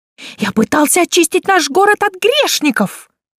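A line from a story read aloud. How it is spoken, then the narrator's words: Shrill voice. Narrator (Russian): Его интонации снова стали визгливыми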